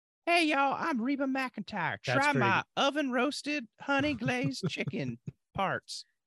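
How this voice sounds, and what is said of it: High-pitched Southern female celebrity impression. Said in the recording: “Pretty good. ... you nailed the timber, the high, but she speaks a little quicker.”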